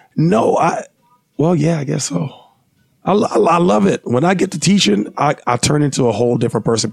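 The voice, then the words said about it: Hoarse, worn-out voice. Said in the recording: “you could barely actually talk out loud... make me sound like, you know, broke down DMX... my voice will never be normal... now it's just shot”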